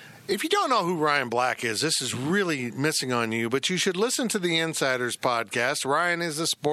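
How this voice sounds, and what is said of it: Usual voice. Nothing is said of it.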